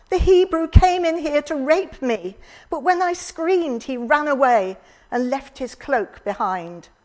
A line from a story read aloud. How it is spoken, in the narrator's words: cried